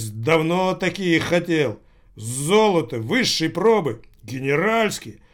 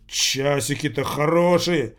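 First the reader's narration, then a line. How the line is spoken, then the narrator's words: Grumbling. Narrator (Russian): ворчал Рохля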